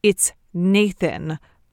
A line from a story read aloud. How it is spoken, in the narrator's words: Nate would have lifted his chin haughtily and said